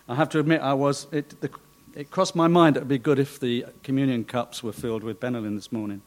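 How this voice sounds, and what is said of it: Hoarse, failing voice. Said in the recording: “You may have realised, well, you probably did. You couldn't avoid it. I am losing my voice.”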